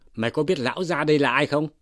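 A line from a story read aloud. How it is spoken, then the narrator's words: Shouted demand. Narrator (Vietnamese): Lý Quỳ quát hỏi rằng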